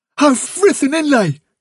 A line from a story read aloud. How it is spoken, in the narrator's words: cried Blackberry